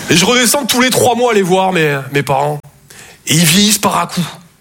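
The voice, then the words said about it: Slight Toulouse southern French accent. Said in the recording (French): “Je viens de Toulouse à la base. Ouais, ça s'entend un peu”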